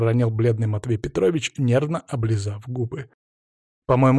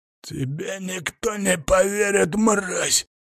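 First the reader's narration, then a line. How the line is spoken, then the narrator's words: Furious hoarse rasp. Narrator (Russian): прохрипел Михайлов, брызжа слюной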